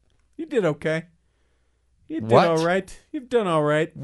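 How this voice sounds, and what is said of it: Usual voice. Nothing is said of it.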